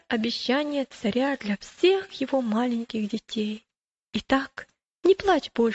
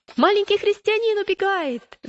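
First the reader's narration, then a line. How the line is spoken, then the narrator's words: Shout. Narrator (Russian): закричал один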